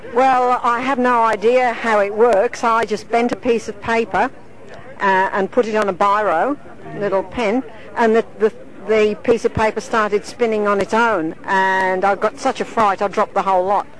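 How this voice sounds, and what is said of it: English accent mixed with Australian. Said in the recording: “You have an interesting accent. ... English accent mixed with Australia.”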